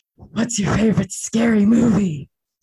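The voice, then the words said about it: Ghostface horror-villain voice impression. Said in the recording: “do a ghost face impression? ... You're about 65% there.”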